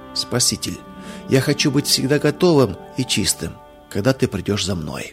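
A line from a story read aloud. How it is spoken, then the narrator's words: Inaudible repeated whisper. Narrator (Russian): неслышно для других, он шепотом повторял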